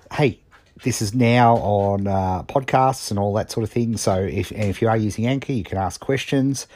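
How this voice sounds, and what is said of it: Strained, worn-out voice. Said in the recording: “as you can hear, my voice is really shot”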